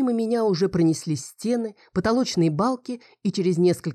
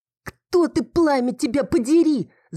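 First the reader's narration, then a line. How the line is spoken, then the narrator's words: Screamed. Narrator (Russian): закричала я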